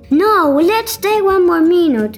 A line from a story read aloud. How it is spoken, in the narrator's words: screamed a girl that was still in half the water crying